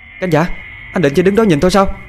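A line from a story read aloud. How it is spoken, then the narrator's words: Shouting. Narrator (Vietnamese): hét lên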